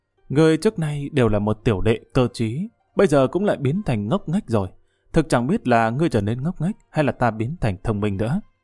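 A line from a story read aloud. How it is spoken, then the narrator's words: Muttering. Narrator (Vietnamese): Nàng lẩm bẩm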